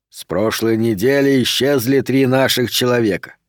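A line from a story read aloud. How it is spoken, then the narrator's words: Plain. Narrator (Russian): сказал Пендергаст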